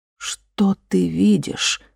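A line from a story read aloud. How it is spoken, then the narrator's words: Whispered repeat. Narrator (Russian): повторила Катла шепотом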